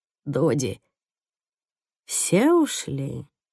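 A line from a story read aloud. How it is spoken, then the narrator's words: Quiet question. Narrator (Russian): Тихо спрашивает она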